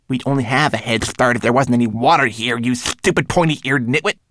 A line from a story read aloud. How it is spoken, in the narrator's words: snapped Twigleg